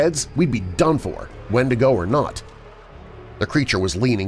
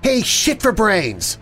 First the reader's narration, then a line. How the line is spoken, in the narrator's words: she yelled